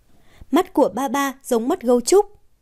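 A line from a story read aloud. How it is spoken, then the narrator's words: Child laughing loudly. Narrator (Vietnamese): cô bé cười lớn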